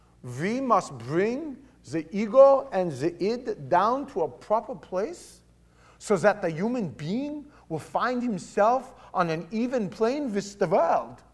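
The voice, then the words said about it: German accent imitating Sigmund Freud. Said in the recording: “Sigmund Freud. ... It's my German accent.”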